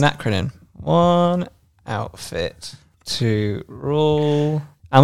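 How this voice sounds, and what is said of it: Usual voice. Nothing is said of it.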